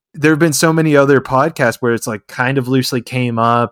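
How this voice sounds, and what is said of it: Excited voice. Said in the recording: “hear the excitement in my voice, I'm trying to keep my shit together”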